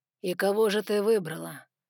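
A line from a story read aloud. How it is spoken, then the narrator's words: Soft with an undertone of growling. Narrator (Russian): Мягко поинтересовался Саймон, но в его голосе послышалось рычание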